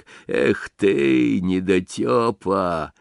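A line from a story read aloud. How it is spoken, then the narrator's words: Muttering to oneself. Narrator (Russian): Бормочет про себя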